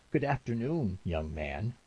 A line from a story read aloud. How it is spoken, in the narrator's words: said in a tremulous voice